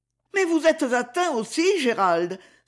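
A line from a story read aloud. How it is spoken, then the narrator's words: Terrified cry. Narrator (French): s'écria Lady Isabelle avec terreur en voyant le sang qui coulait de la manche de son frère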